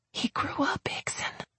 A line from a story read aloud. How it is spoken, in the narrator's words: I whispered back